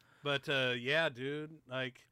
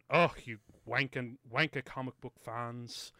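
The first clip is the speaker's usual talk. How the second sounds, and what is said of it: Put-on British accent. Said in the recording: “I gotta say it in a British accent.”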